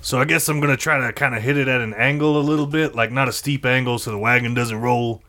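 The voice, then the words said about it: Speaks in a character voice. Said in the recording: “why am I doing this in the character voice?”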